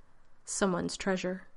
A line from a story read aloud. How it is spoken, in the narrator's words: Doctor added dryly